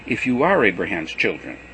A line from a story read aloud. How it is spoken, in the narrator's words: Jesus said